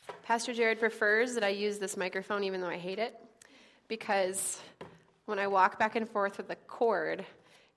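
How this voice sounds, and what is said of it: Slightly sick, congested voice. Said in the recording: “pardon my voice. I have a little bit of a cold, ... pardon me and my voice”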